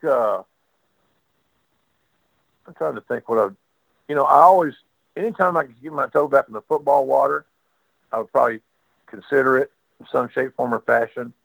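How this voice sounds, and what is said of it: Distinctive Southern US accent. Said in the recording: “that distinctive Southern accent that I've been told cuts through the clutter”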